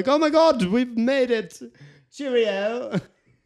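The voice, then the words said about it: Imitated English accent. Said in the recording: “That was a really good impression.”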